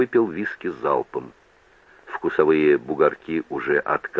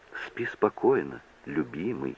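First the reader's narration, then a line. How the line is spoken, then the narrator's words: Barely audible. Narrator (Russian): сказала она едва слышно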